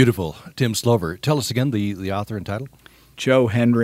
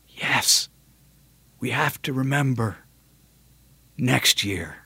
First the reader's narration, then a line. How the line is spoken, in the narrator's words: I whisper back to him